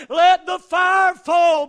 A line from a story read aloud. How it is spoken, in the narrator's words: he yelled